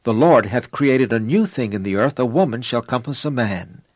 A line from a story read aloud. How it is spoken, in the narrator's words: The prophet Jeremiah exclaimed